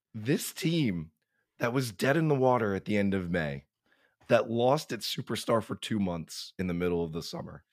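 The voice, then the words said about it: Worn-out, impaired voice. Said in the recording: “with a better voice than I currently possess ... This is what my voice sounds like following Saturday's Game 4.”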